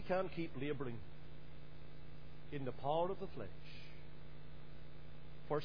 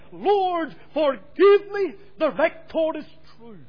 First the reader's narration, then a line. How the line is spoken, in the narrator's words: he cried